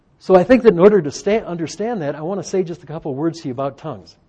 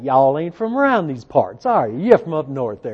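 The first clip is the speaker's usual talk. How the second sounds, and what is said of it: Put-on folksy regional accent. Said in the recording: “we can tell from the accent ... in spite of the accent”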